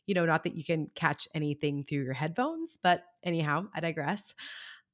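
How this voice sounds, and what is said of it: Weird-sounding, under-the-weather voice. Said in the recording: “excuse my voice if it sounds weird at all. I am currently getting over a cold”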